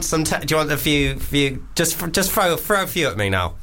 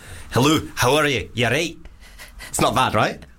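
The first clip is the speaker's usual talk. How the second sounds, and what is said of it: Attempted Scottish accent. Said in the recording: “Scottish.”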